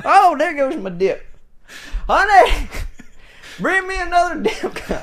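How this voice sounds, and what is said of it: Shouted put-on redneck accent. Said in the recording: “I'm going to stop screaming ... I love the accent ... imagining the rednecks having their own accent”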